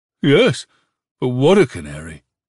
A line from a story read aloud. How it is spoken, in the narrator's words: the stranger exclaimed proudly